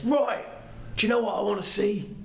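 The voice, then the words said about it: Imitates another person's voice. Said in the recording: “my Jason Statham impression”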